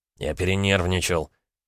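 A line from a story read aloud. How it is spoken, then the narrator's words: Embarrassed mumble. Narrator (Russian): буркнул красный Дмитрий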